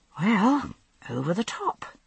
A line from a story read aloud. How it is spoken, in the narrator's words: I muttered under my breath